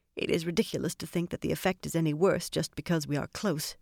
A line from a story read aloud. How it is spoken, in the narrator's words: she muttered